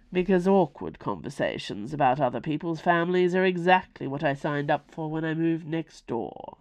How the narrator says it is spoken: he murmured to himself

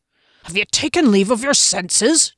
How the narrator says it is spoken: Janet growled from behind

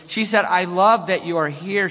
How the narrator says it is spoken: she said cheerfully

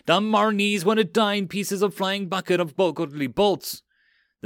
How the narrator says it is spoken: The single goblin crew cried

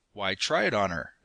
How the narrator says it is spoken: exclaimed Mercer with a mounting enthusiasm

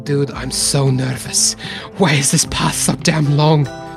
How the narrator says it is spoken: Alucard leans over and whispers in your ear

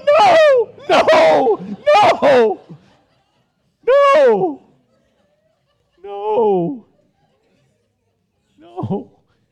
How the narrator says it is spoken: I cried

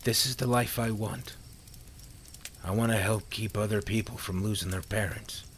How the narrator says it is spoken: Sam said calmly

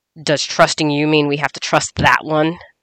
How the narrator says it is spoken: Nerix growled

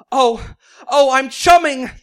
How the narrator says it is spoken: Unable to take any more pleasure, Ariel began to moan

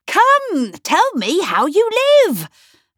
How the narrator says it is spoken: I cried

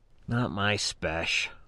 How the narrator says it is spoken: I muttered

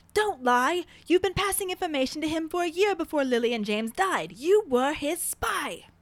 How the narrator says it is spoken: Caps lock, Sirius yells

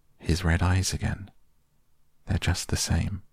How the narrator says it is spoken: Lucy murmured, as if to herself

